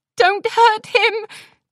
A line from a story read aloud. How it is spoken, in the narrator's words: Twilight pleaded